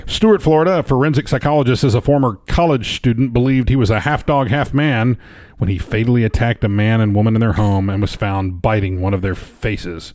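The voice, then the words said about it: Strained, worn-out voice. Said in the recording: “My voice is taking a beating today.”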